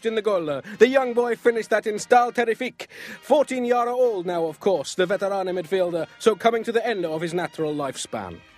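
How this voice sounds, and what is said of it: Mock Italian accent. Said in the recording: “That sounds just like your Italian accent.”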